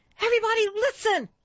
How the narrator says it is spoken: Caroline shouted

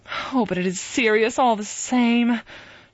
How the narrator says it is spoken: she sighed

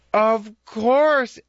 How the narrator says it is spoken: Esther Goose exclaimed

